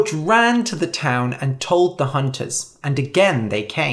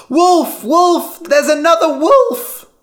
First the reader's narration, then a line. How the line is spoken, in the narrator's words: again, Lyman shouted